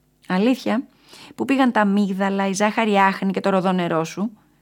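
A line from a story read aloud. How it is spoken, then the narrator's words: Laughing question. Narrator (Greek): ρώτησε ο ζαχαροπλάστης γελώντας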